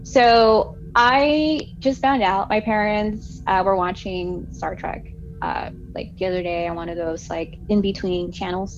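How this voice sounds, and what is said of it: Strong California West Coast accent. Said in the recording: “my crazy West Coast accent ... I grew up on the beach ... California ... I can get kind of, annoying sometimes with my accent”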